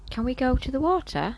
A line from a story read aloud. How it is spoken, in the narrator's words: asks eagerly